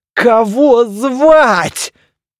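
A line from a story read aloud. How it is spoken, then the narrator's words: Countertenor sobbing. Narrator (Russian): зарыдал великий контртенор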